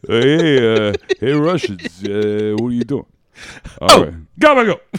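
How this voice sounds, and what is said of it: Put-on Italian accent. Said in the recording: “Then he got an Italian accent for some reason.”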